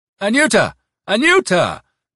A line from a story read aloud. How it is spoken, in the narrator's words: he called out cheerfully, miraculously recovering from his bronchitis